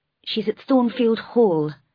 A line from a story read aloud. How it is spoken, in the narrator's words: replied Mason in a weak voice